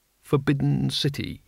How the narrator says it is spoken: he murmured

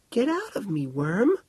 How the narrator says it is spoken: she giggled

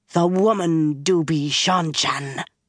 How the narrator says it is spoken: he growled

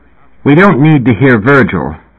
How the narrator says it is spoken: Kirsten said in a biting tone

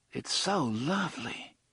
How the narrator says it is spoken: Susanna murmured

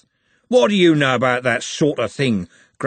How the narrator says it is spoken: growled Andy

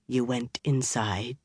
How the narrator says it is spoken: said in a very level voice

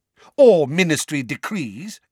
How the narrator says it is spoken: amended Fudge angrily

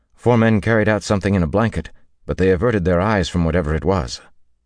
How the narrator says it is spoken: her brother Barmanis said uneasily

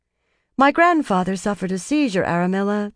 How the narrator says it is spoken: the young woman said calmly

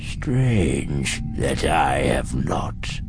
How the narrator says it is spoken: the Emperor croaks from beneath his hood

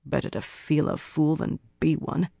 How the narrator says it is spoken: Birgitta muttered, half under her breath

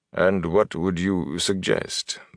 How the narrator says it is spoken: Bornhold asked calmly

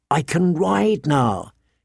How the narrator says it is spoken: he whispered to his friend

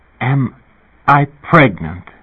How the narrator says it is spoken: Ribis said brokenly

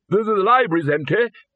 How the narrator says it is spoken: bellowed the arch-chancellor

